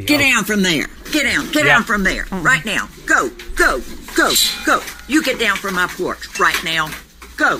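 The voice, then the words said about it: Stern teacher voice. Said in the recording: “That's the teacher voice... This is not scary at all... that's the teacher voice”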